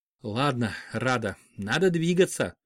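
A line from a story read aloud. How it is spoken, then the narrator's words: Quiet speech. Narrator (Russian): тихо сказала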